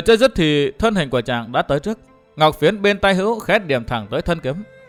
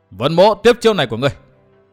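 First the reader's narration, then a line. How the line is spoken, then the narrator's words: Hurried loud shout. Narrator (Vietnamese): Vân Thiên Nhạc vội quát lớn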